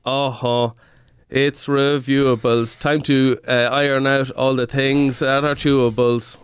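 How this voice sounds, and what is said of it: Sung jingle imitating another person's voice. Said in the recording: “That was a perfect Edwin impersonation ... That's what he sounds like. That's his whole shtick.”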